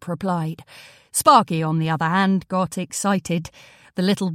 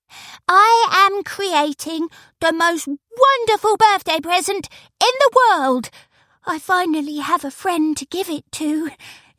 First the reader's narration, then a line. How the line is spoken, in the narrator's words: exclaimed an overjoyed Izzy, but she didn't manage to finish her sentence